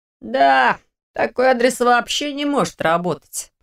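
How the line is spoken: Grumbling. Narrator (Russian): проворчал Лерик

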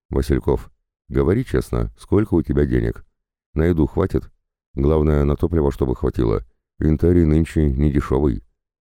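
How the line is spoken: Low voice, half-whisper. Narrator (Russian): Кнутов спросил вполголоса

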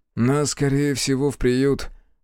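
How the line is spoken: Gloomy, boy. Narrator (Russian): мрачно озвучил свои мысли Мишка

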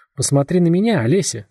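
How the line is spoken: Gentle. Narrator (Russian): ласково произнес он

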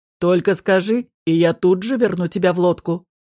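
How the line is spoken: Growl. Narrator (Russian): рыкнула Астарт

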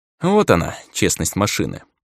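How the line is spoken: Wry snort. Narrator (Russian): хмыкнул я

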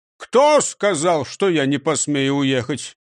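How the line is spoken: Angry growl. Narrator (Russian): сердито прорычал он

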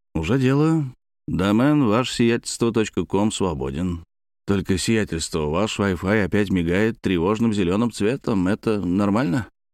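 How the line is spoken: Muttered. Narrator (Russian): Шардик пробормотал

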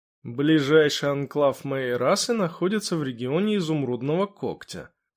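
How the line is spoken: Calm reply. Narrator (Russian): спокойно ответил Шор

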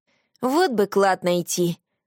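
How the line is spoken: Wistful sigh. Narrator (Russian): вздохнул Марат, пересчитав оставшиеся деньги

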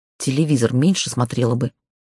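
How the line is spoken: Muttering. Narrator (Russian): пробормотала я

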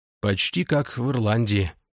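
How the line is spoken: Muttering with a sigh. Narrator (Russian): пробормотал вампир, со вздохом

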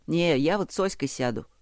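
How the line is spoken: Sudden remark. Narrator (Russian): Никит вдруг сказал

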